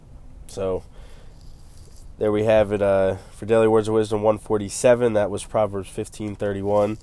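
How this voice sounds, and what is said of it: Slightly off, unwell-sounding voice. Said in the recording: “My voice is a little off because I don't think I'm sick like I was before, but my allergies are terrible.”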